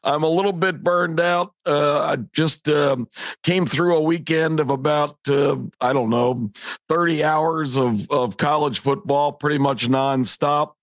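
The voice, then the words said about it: Slightly raspy voice. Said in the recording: “Voice is a little raspy.”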